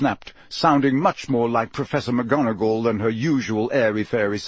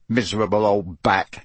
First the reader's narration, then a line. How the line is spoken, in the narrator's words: said Ron bitterly